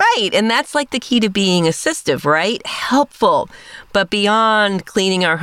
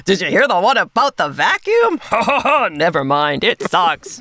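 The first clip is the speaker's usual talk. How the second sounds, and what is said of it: Robot vacuum character voice. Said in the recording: “That was my Gus impression with a really bad joke.”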